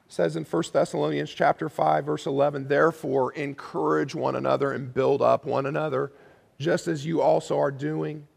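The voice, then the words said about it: Voice giving out, strained. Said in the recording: “my voice is going out”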